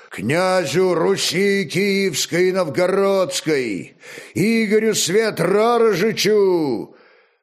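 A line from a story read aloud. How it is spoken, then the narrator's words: Booming roar, grey-haired man. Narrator (Russian): седовласый мощным громовым глазом рыкнул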